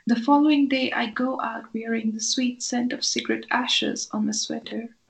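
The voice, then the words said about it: Irish lilt blended accent. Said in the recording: “it's so cool to hear the Irish lilt incorporated into the sound of your speech ... It's a really interesting blend”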